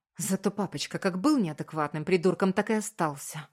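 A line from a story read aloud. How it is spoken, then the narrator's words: Spat out angrily. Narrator (Russian): Выплевываю зло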